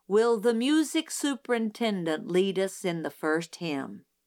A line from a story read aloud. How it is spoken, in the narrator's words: he said